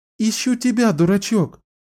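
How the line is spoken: Happy breathless exhale. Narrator (Russian): Счастливым голосом выдохнула

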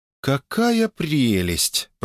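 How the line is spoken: Drawled. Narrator (Russian): протянула Оля

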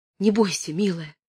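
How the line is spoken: Whisper. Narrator (Russian): прошептала она

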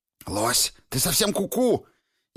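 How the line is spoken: Furious hiss. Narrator (Russian): Яростно зашипела Света

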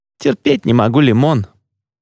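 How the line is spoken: Laughing. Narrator (Russian): Едриэль засмеялся

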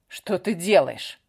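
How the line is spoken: Accusing question. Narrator (Russian): обвиняющим тоном спросил он

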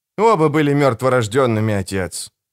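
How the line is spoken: Grumble. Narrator (Russian): буркнул Генрих

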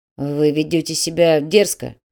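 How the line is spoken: Grumbled. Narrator (Russian): буркнул господин Пу

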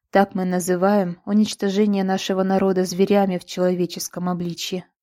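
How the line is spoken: Sighing. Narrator (Russian): вздохнула Ребеццин

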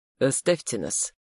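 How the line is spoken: Quiet but commanding. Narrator (Russian): произнес он негромко, но так, что это не прозвучало, как просьба

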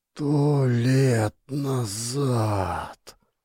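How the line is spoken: Frightened whisper. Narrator (Russian): прошептал он, и я увидел, как лицо его побледнело

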